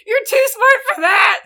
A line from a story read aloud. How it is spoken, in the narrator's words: Sonic screamed